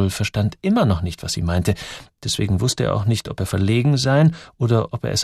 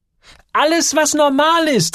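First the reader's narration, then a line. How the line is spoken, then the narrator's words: Calling out. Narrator (German): rief Gertrud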